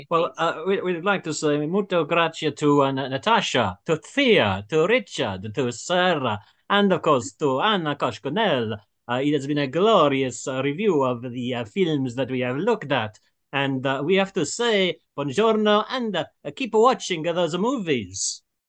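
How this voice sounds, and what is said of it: Put-on Italian accent. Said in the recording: “either in Italian or in an Italian accent this week ... can we have it in an Italian way?”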